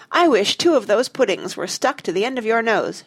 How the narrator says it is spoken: she cried

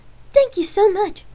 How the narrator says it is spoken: the girl answered excitedly

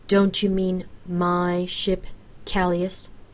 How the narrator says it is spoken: I drawled

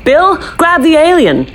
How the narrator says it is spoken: I shouted

